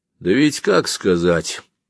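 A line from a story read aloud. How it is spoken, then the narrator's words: Calm. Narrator (Russian): спокойно говорил один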